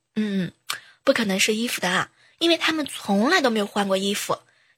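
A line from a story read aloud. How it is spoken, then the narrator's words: Muttering. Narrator (Chinese): 在嘀咕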